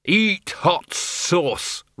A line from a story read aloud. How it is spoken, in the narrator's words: roared the Arch-Chancellor